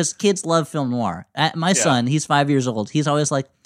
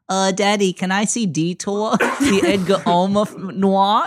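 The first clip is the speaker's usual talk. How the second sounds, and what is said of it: Baby-talk child voice. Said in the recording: “talking like a baby”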